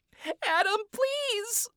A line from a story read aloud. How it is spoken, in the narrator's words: Charlie cried out desperately